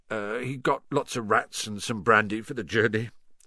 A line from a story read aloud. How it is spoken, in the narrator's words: said Hagrid in a muffled voice